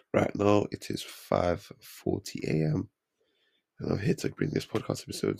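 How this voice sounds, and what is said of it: Blocked-nose, congested voice. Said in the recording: “I'm a bit ill ... You might be able to hear it in my voice. My nose is a bit blocked”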